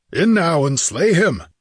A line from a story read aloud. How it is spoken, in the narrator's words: yelled Ascalante